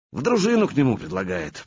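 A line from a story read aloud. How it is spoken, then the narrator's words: Grumbled. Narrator (Russian): проворчал Славка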